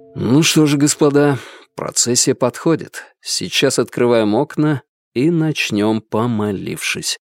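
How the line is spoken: Quiet. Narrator (Russian): тихо проговорил я

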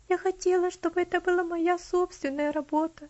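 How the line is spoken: Sobbing. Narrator (Russian): она всхлипнула

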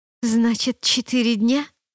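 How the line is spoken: Hissed. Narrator (Russian): прошипела я

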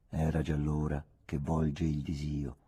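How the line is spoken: Soft ironic declaiming. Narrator (Italian): declamò una voce ironica, piano

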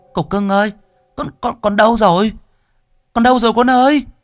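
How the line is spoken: Cry out. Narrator (Vietnamese): Mụ kêu lên

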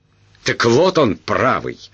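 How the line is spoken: Indignant exclamation. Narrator (Russian): возмущенно воскликнул статский советник

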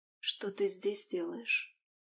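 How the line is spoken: Hoarse voice. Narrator (Russian): Голос Алисии звучал сипло

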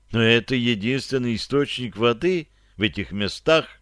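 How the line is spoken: Sighing. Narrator (Russian): вздохнул партизан

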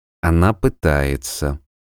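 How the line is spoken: Soft. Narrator (Russian): мягко сказал он

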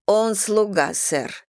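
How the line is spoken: Dry reply. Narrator (Russian): сухо отвечала она

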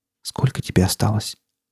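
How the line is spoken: Quiet question. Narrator (Russian): тихо спросила

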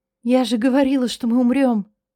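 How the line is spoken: Trembling whisper. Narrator (Russian): Дрожащим голосом прошептала

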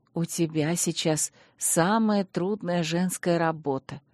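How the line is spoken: Soft, smiling. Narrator (Russian): мягко улыбнулась матушка Мелисанта

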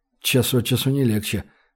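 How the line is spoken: Muttering. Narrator (Russian): пробормотал Гош

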